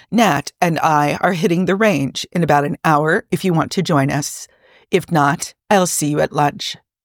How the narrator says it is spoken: Jarvis read out in his bland British tone

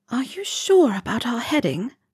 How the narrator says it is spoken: Helga whispered

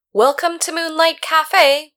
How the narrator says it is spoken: called out, his back to the door

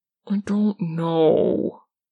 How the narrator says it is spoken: Dean whines

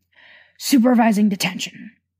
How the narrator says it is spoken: Severus said, with a sigh

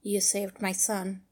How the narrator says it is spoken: Batman said softly

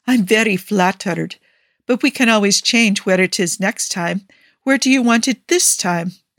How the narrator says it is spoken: he gasps

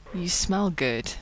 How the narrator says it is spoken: Rodney mumbles

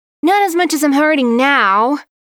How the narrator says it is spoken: Yuri whined

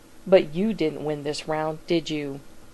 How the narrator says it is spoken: the trickster sneers

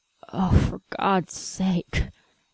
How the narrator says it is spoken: Q runs a hand through his hair and mutters

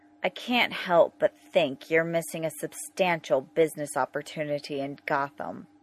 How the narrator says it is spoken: Bruce says in a sharper, more nasal accent

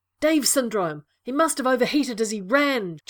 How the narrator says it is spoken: John yelled at Sherlock

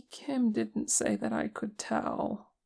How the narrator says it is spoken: Che said, his voice wavering

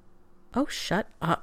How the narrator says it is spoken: McKay muttered

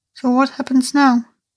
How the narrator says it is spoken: Arthur sighed

